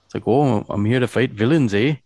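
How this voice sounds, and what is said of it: Put-on Canadian accent. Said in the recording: “I'm picturing him with a Canadian accent”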